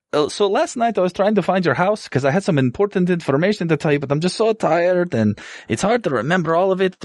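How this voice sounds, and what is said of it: Put-on character accent. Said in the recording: “I forgot my accent, so I'm doing this now”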